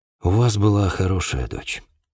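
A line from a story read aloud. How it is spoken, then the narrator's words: Sigh. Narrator (Russian): вздохнул я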